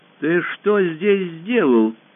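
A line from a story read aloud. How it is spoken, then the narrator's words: Menacing. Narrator (Russian): произнесла она грозно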